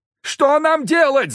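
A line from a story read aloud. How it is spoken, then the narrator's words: Frantic yelling. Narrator (Russian): заорал Захар, на которого опять накатило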